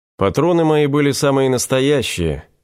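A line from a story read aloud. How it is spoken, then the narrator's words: Calm objection. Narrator (Russian): спокойно возразил Игорь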